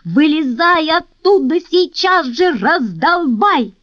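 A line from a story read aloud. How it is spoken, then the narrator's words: Shouting. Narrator (Russian): закричал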